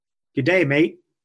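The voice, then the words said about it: Weak attempt at Australian accent. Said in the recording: “Say g'day, mate, in an Australian accent. ... Need some work. Need some work.”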